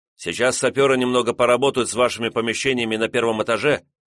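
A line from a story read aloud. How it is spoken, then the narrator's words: Hurried rapid chatter. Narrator (Russian): торопливо зачастил посланник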